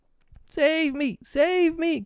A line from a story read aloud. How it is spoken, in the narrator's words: cried Nibs